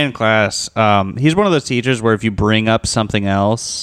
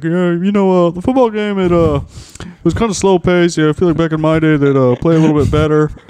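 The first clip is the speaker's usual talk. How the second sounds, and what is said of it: Impression of a teacher. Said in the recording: “did an impression of him, and you're good at impressions. Let me hear your impression of him”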